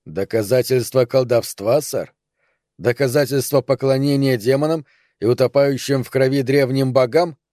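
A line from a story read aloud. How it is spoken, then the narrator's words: Firm voice. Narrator (Russian): Капитан Фокс твердым голосом добавил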